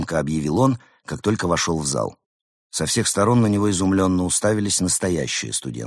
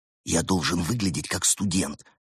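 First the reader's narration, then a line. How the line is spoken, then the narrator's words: Whispered objection. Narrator (Russian): также шепотом возразил Константин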